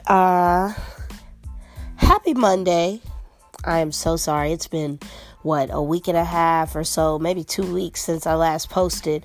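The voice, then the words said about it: Sick, under-the-weather voice. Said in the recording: “I'm sure you can tell from my voice. I'm a little under the weather.”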